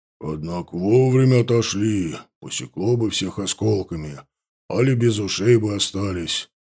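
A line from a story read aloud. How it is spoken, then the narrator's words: Muttering. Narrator (Russian): пробормотал Савва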